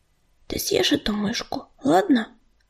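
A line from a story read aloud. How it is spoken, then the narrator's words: Whisper. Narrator (Russian): прошептал он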